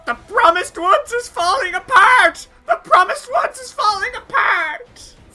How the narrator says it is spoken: she's clutching at her hair and screaming

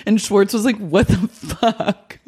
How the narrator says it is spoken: Jax laughed

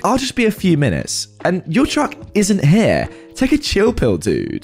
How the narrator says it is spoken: she scoffs at me and rudely states back

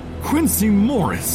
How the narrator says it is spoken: I cried out

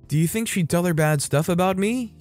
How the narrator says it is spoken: ask, nervously

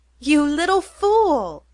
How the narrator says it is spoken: cried Lou, loudly and affectionately

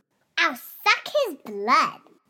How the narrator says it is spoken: chirped Weasel

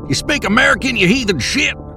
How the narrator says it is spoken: I shouted over the sound of the river

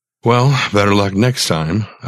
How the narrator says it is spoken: I sighed

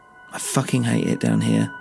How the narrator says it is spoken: I mumbled to myself

